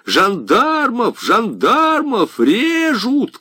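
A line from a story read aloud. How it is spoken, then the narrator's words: Shouting from the corridor. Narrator (Russian): кричал уже в коридоре Гервиг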